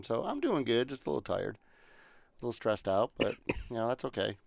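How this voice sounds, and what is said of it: Slightly scratchy voice. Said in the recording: “my voice is a little scratchy because I went to the Predators game Saturday night... and yelled a little bit too much”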